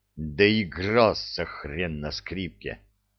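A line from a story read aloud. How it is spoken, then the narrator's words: Gloating, through teeth. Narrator (Russian): процедил Кречет злорадно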